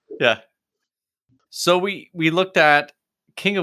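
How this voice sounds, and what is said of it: Usual voice. Nothing is said of it.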